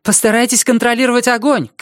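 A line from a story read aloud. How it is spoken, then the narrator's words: Shouting woman. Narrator (Russian): крикнула она Ландерцу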